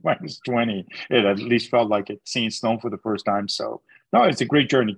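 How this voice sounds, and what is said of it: Chilean Canadian accent. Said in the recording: “you've got the accent to prove it ... I still have the accent ... You got the Canadian accent too. Chilean Canadian accent.”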